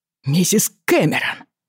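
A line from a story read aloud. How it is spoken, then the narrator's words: Exclaimed. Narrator (Russian): воскликнул Стэнхоуп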